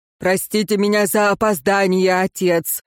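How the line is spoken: Low booming female voice. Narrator (Russian): прогудела дева низким трубным голосом

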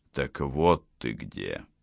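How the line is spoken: Silky whisper. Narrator (Russian): прошептал вкрадчивый голос

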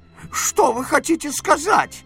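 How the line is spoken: Exclamation. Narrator (Russian): воскликнул Эбенезер

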